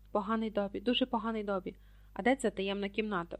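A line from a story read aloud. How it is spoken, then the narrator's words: Whispered. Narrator (Ukrainian): прошепотів Гаррі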